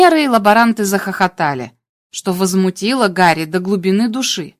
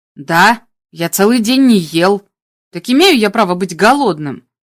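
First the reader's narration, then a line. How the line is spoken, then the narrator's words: Grumbling. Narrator (Russian): проворчал Гарри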